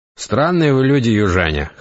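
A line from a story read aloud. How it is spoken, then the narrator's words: Wry snort. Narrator (Russian): хмыкнул Матвей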